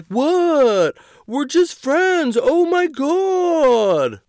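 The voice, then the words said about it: Imitated straight guy voice. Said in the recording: “my straight guy impression”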